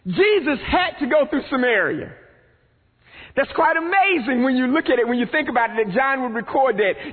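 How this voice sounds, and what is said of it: Rural eastern North Carolina accent. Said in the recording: “you can tell by my accent, I am from the country inner city, rural eastern North Carolina”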